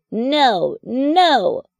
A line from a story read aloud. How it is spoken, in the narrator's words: cried Froggy